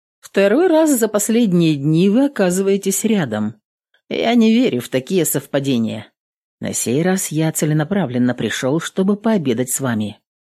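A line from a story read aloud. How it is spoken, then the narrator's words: Calm reply. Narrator (Russian): спокойно ответил служитель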